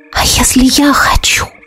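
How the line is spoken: Entranced whisper. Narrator (Russian): прошептала я, загипнотизированная его взглядом

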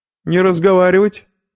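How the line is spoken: Sharp shout. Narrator (Russian): окрикнул их меченый

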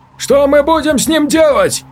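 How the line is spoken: Shouted. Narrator (Russian): выкрикнул Владимир

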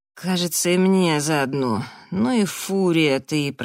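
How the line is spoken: Good-natured groan. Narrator (Russian): простонал Раф, но явно беззлобно

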